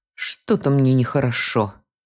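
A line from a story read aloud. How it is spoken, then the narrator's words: Mutter. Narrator (Russian): пробормотал он, обращаясь к супруге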